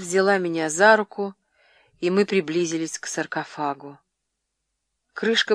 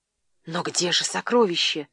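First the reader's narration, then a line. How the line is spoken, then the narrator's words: Whisper. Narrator (Russian): прошептала Клеопатра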